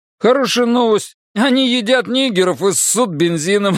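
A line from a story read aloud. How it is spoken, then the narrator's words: Blurted, then loud laughter. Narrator (Russian): выдал Бобби и расхохотался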